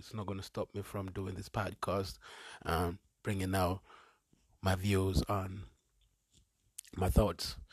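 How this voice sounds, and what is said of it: Rough voice from a cold. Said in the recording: “My voice is a bit, you know, messed up. It's because I got a cold”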